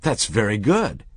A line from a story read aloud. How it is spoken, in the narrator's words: the manager exclaimed